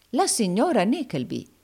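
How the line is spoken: Exclaiming. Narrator (Italian): esclamò il baronetto Malberry Hawk

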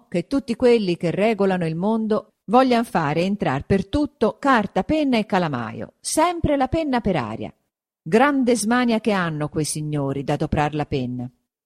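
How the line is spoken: Exclaimed. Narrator (Italian): esclamò

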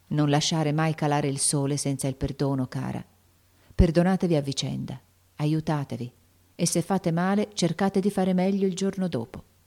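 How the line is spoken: Mother speaking softly. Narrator (Italian): questa le disse a bassa voce

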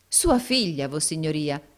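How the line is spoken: Exclamation. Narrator (Italian): esclamò il baronetto Mulberry

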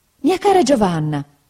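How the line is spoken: Mother exclaiming. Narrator (Italian): esclamò mia madre

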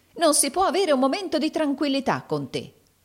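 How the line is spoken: Woman's exclamation. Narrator (Italian): esclamò la donna

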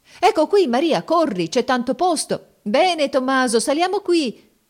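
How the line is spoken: Crowd shouting. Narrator (Italian): si gridava

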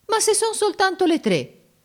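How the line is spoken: Offended exclamation. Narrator (Italian): esclamò Giorgio in tono d'offesa

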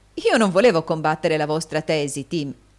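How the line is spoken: Young man laughing. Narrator (Italian): disse il giovane Cheeryble, ridendo

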